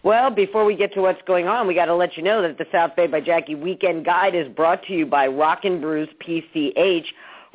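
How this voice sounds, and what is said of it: Slightly hoarse, froggy voice. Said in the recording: “I have a little frog in my throat this morning.”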